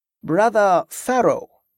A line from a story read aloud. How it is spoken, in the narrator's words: Drusus replied slowly